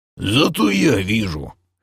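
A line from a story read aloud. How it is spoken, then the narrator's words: Hoarse whisper, gnome. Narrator (Russian): хрипло зашептал гном Крей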